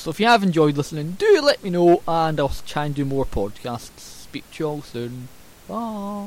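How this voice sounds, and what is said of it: Scottish accent. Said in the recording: “my Scots accent”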